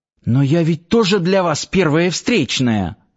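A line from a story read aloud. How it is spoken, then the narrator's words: Subdued exclamation. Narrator (Russian): Уже с куда меньшим запалом воскликнула Надя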